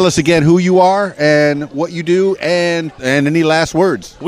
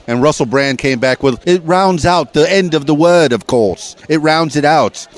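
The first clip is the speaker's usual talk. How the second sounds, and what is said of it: Poor, manic imitation of another person's voice. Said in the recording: “worst Russell Brand impression ever. He's very manic.”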